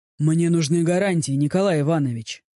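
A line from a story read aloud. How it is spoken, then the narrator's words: Calm but tense voice. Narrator (Russian): говорю я, и мой голос звучит спокойно, но каждый мускул в моем теле напряжен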